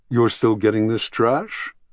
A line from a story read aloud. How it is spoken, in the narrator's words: he asked at last in an amused tone